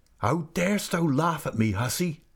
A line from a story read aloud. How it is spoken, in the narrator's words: cried